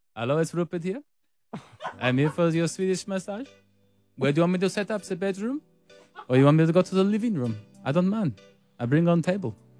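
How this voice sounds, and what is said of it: Put-on foreign-accented character voice. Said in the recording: “The accent gear just doesn't hit, does it? ... Not at all. But you asked for Rupert, and when I become Rupert, that's not me doing an accent.”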